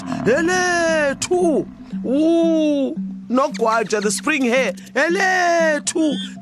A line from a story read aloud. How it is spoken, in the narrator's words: Buffalo called out